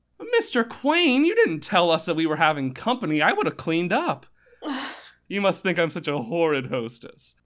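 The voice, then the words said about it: High-pitched character voice. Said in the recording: “you went all out with the voice. I was like, you better do a high-pitched voice.”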